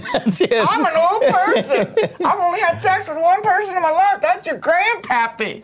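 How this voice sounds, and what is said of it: Old grandma character voice. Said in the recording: “You love going to that accent.”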